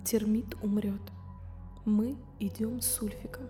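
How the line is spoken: Whisper. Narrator (Russian): прошептала

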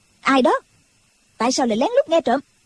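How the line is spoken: Sharp shout. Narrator (Vietnamese): Đinh Mẫn Quân quát lên

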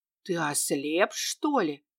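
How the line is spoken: Loud indignant whisper. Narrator (Russian): громким шепотом возмутился боевой чаровник

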